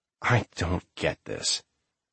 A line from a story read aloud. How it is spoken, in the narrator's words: Sam said miserably